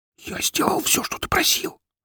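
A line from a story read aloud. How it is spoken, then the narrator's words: Angry whisper. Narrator (Russian): зло зашептал он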